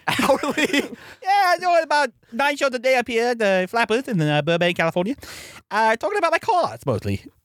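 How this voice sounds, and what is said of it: Imitates another person's voice. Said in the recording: “my Jay Leno impression.”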